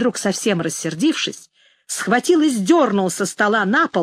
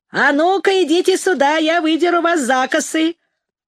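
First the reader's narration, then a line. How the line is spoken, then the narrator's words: Shouting. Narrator (Russian): Расщепей закричал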